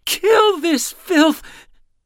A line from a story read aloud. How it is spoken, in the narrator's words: He screamed, sobbing